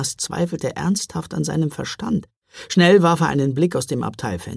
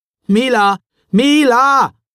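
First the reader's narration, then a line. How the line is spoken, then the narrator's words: Repeated calling. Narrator (German): rief er noch einmal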